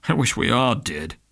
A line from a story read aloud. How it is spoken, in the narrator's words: Polehouse grumbled